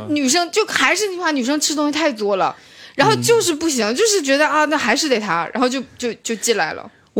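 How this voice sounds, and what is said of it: Northeastern Chinese Shenyang accent. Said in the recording (Chinese): “你这个口音，你这口音还用吗 ... 沈阳，沈阳，我是来自美丽的沈阳”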